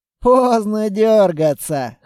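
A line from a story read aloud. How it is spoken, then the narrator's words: Snorting. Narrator (Russian): хмыкнул он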